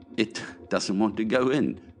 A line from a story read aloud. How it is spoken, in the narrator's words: he laughed